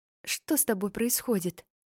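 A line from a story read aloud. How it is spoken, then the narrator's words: Whisper in ear. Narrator (Russian): шепнула, коснувшись губами уха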